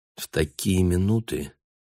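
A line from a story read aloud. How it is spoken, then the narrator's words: Quiet speech. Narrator (Russian): тихо проговорила Анна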